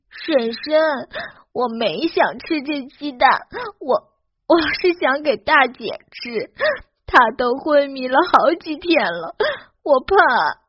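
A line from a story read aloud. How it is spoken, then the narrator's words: Crying child explaining. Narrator (Chinese): 小女孩哭得越发伤心了，解释道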